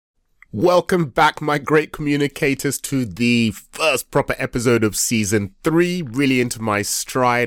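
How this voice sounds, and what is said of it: Nasal, congested voice. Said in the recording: “my voice is even more nasal than normal, my wife says I have a very, very nasal voice anyway, it is because I am struggling with a cold ... it sounds a bit nasal”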